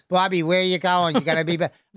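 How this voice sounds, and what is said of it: Put-on Boston accent. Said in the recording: “Everett, Massachusetts, Boston accent”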